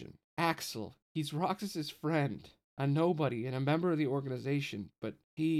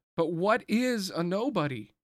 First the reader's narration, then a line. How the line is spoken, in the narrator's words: Roxas shouted, losing his cool